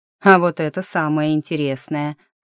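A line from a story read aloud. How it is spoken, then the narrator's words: Amused snort. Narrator (Russian): хмыкнул советник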